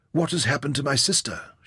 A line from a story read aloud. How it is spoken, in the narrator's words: she whispered